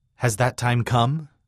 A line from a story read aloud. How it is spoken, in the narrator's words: Dan asked in his thick Welsh accent